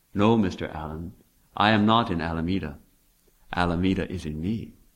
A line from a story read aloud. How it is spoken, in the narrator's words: Swamiji gravely replied